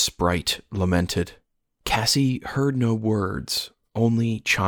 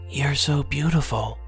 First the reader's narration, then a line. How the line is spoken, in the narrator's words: Cassie whispered, marveling